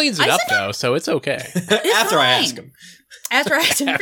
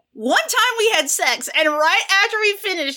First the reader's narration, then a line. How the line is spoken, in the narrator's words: he shouted